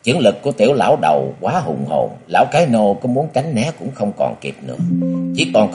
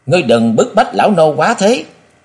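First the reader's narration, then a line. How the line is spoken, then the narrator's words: Sudden roar. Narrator (Vietnamese): Lão bỗng gầm thét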